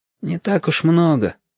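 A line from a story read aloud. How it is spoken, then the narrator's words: Sighed. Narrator (Russian): вздохнул Яшка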